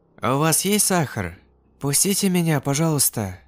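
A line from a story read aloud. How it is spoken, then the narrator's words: Quiet ingratiating voice. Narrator (Russian): тихим, вкрадчивым голосом снова повторила тетя Рима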